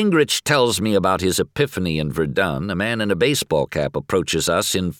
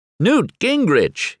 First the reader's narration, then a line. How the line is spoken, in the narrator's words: exclaims